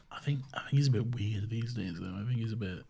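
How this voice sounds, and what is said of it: Whispering. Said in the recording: “I don't know why I'm whispering like he's in the room.”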